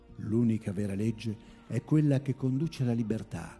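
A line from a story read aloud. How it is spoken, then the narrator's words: Plain. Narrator (Italian): disse Jonathan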